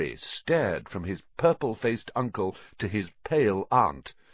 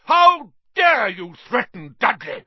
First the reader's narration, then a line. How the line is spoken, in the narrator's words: roared Uncle Vernon